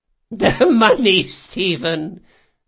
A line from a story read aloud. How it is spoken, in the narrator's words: she chuckled